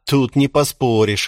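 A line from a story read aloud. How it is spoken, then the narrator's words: Snorting. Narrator (Russian): хмыкнул Джош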